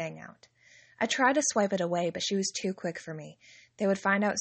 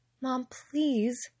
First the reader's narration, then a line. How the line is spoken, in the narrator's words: I pleaded